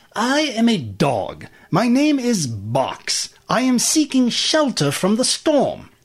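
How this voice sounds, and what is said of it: Posh British gentleman accent. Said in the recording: “The dog spoke with a British accent, as though he was a rich gentleman.”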